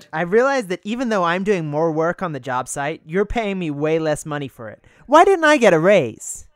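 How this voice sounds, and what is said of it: Put-on American accent. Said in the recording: “can you do your best American ... accent?”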